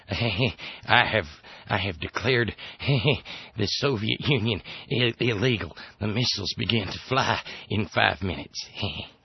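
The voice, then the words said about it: Weak Ronald Reagan impression. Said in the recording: “that's not a very good Reagan impression”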